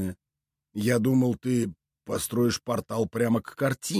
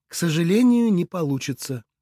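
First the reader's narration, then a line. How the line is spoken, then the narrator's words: Sighing. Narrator (Russian): вздохнула Ирина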